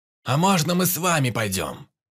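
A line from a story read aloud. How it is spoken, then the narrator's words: Calling out after. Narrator (Russian): крикнул вслед Перепел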